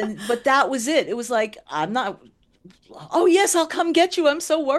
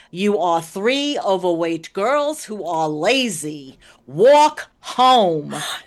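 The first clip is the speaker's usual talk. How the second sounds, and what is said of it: Long Island accent. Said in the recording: “in her classic Long Island accent”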